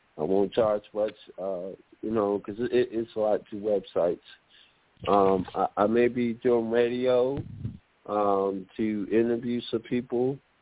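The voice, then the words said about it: Hoarse voice. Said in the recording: “My voice is so hoarse right now.”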